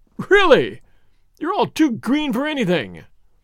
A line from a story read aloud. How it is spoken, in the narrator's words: writhing with laughter, exclaimed